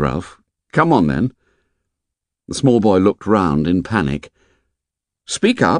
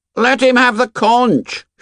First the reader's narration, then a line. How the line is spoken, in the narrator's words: shouted Piggy